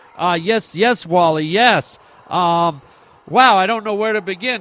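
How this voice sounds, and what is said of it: Excited, overly energetic voice. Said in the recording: “hear the excitement in my voice ... calm down. Dial it down a notch”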